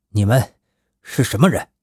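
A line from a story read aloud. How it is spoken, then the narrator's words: Stern, harsh question. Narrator (Chinese): 白狼厉声地问道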